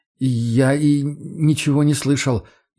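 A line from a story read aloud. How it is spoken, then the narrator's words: Frightened hiccup. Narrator (Russian): испуганно икнул орешек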